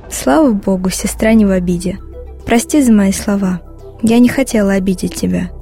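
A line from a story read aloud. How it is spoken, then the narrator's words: Plain. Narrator (Russian): сказала я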